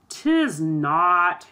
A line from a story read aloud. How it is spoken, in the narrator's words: answered scornfully